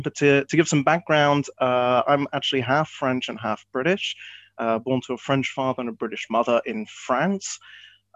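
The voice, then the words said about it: Mixed European-tinged accent. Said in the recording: “It's a it's a bit of a mix of everything. I would say it's a bit of a European twang, which has got a bit of a everything thrown in.”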